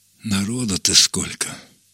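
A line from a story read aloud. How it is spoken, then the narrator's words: Sighing. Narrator (Russian): вздохнул Невыразимов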